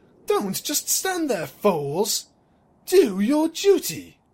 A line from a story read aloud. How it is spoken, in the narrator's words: snapped